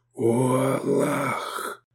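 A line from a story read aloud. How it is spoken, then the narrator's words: Whispering. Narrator (Russian): прошептал Исмат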